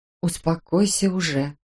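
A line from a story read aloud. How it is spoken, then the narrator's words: Quiet. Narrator (Russian): тихо сказала Ола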